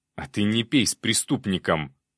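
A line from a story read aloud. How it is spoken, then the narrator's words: Officer's growl. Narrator (Russian): зарычал пристав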